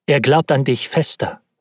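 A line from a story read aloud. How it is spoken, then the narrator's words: Plain. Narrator (German): sagte Elisabeth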